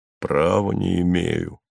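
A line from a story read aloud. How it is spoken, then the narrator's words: Smooth, ingratiating. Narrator (Russian): сказал ему Майкл вкрадчиво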